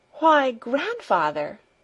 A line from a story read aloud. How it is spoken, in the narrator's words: she exclaimed